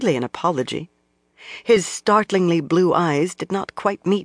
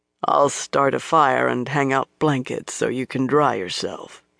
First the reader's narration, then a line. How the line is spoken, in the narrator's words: murmured